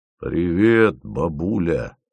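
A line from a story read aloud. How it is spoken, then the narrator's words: Unnaturally sweet voice. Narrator (Russian): Ненормально ласковым голосом сказал Фомин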